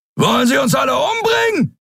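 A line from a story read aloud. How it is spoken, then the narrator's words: Bellowing. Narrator (German): brüllte Thron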